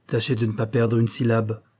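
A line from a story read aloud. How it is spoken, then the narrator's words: Harsh addition. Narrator (French): ajouta-t-il durement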